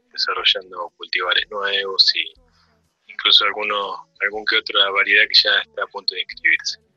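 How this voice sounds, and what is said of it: Very clear, radio announcer voice. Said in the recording (Spanish): “Qué clarito, tiene voz de locutor”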